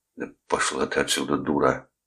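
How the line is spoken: Breathy exhale. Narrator (Russian): выдохнул Кресс

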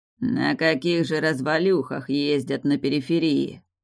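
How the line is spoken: Muttered under breath. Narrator (Russian): пробурчал под нос продавец

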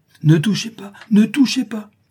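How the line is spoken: Guard exclaiming. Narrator (French): s'écrie l'homme de garde

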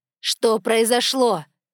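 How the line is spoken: Cat barking angrily. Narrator (Russian): рявкнула скрученная кошка

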